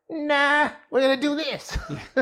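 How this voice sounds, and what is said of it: Poor imitation of another person's voice. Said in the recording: “that's a really bad Will Smith impersonation ... That's my Bugs Bunny ... It is a bit of Bugs Bunny”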